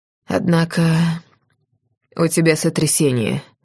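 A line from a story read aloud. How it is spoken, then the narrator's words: Quiet, unexpectedly calm. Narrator (Russian): выдает негромко и неожиданно спокойно он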